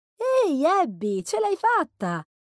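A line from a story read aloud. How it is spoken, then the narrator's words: Smiling exclamation. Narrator (Italian): esclamò sorridendo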